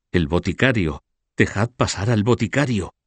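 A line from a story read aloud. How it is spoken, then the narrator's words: Murmured by crowd. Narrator (Spanish): Se oyó murmurar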